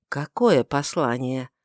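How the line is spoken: Soft question. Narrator (Russian): спросил Каиафа мягко

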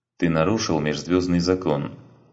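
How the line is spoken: Cold, detached voice. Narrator (Russian): проговорил Сарен холодным, отчужденным голосом

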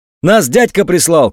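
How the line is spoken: Shouted. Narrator (Russian): крикнул один

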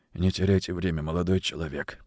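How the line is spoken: Hoarse wheeze. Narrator (Russian): прохрипел он

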